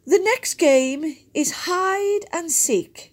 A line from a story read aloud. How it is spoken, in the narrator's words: Winnie shouted